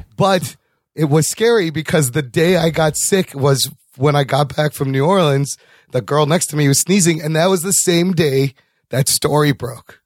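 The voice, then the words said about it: Hoarse, croaky voice. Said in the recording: “What's going on with your fucking voice? ... I swallowed a frog ... You go from the flu to bronchitis.”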